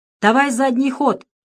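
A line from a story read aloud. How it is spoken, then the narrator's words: Shouted. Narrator (Russian): крикнул Петров водителю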